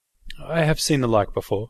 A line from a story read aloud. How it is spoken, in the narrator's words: I replied uneasily